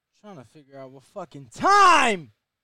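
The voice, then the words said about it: Yelling, loud agitated speech. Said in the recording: “Why are you yelling”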